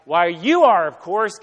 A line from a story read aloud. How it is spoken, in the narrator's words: mighty roar of approval